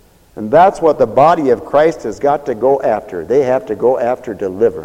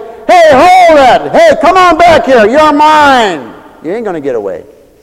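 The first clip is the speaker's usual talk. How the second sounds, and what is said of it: Yelling. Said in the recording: “It's almost like I'm yelling,”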